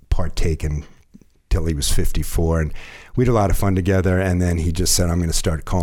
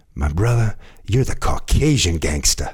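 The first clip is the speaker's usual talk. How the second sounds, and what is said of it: Imitates another person's voice. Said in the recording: “You did a good Snoop impression too.”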